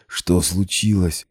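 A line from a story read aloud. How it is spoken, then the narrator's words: Weak hoarse wheeze. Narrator (Russian): бессильно хрипела я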